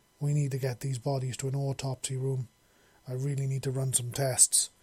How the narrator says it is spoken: she said

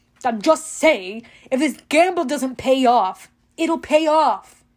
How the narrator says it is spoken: Luke snapped

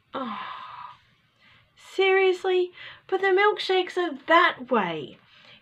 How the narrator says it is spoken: cried

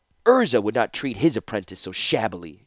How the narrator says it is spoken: said hotly

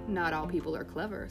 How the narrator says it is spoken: said Kamala

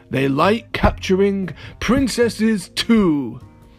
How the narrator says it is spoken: he laughed, a horrible laugh, and said to Princess Eliza

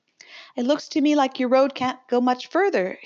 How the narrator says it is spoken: she remarked cheerfully

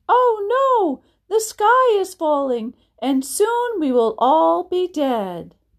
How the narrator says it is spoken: Chicken Little screamed

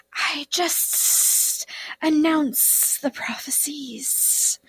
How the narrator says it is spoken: the oracle muttered

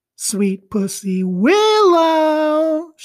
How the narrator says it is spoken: would cry out at the top of her voice

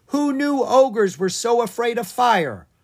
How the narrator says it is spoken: Owen yelled to his sister

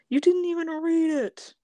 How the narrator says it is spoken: he cried

